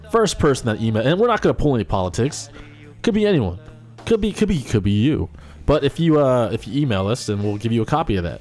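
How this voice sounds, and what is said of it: Announcer-style radio voice. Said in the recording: “I'm going to get into my radio voice”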